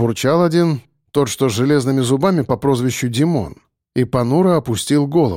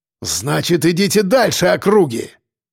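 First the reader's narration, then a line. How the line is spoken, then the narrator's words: Roaring. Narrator (Russian): взревел Кирпич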